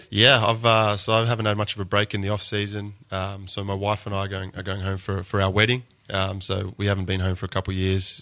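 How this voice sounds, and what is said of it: Australian accent. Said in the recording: “Everybody thinks this is Lance doing an imitation of an Australian, but this is really ... somebody that has this accent”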